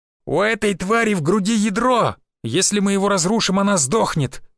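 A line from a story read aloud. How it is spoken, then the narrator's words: Shouted. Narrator (Russian): выкрикнул я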